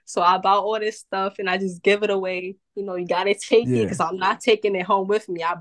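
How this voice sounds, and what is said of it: New York accent, Boston-like pronunciations. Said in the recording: “I love your accent. ... I'm in New York City. ... I've been told that I have a Boston accent. Because it's like with certain letters, certain pronunciations, I go like deep with it. I slur my words.”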